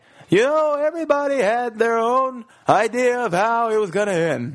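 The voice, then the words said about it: Bad Jerry Seinfeld impression. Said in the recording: “That was my bad Jerry Seinfeld impression.”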